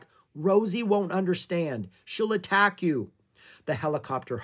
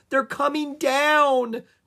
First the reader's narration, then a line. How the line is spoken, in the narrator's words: cried Annie